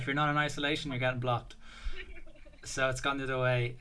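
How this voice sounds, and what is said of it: Irish accent. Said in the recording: “it's the Irish accent.”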